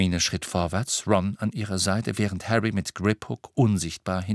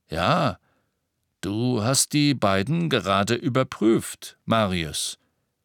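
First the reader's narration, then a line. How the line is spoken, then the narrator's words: Slightly sluggish voice. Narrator (German): mit leicht träger Stimme sagte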